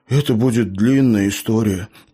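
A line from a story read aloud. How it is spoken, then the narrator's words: Sad sigh. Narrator (Russian): печально вздохнул Лео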